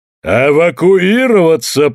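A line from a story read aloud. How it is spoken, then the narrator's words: Thundering ruler. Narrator (Russian): прогремел властитель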